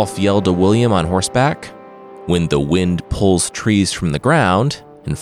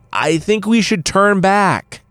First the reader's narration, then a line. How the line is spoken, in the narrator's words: William screamed over the howls of the wind